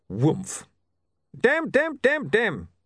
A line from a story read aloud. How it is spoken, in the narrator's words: screaming